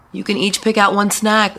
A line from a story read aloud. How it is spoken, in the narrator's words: Sarah shouted